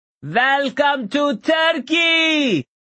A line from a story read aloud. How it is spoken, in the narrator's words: as loudly as he could